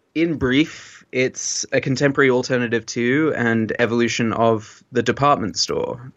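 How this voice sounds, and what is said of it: British accent. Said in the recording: “He's got this lovely British accent”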